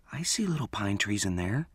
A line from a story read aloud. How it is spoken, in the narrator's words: she whispered back